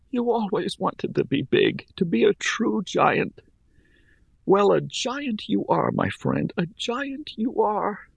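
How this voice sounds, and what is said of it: Tearful whisper. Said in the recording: “tears again filling my eyes. My voice a mere whisper, I spoke to the corpse.”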